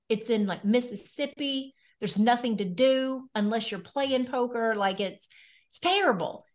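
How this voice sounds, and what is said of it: Noticeable regional accent. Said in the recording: “you are the first beautiful person on our podcast that has had an accent like you”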